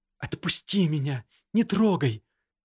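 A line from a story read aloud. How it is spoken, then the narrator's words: Sobbing while struggling. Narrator (Russian): Всхлипнула она, пытаясь вырваться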